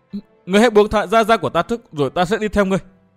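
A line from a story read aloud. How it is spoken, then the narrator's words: Shaky voice. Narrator (Vietnamese): Tiểu Phấn cất giọng run run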